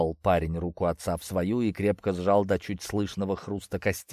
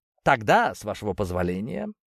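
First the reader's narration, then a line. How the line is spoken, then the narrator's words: Mocking tone. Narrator (Russian): насмешливо поклонился ему Вадим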